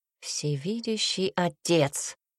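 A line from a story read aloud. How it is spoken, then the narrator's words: Hissing. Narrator (Russian): прошипел он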